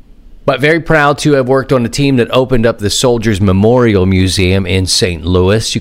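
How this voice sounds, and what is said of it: Congested, stuffy sinus voice. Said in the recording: “I'm feeling better, but not great. And you can hear it in my voice. There's a little bit of loitering up in the sinus area that's making me sound a little...”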